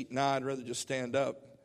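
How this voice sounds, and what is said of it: Heavy southern drawl. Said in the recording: “Real, real southern drawl.”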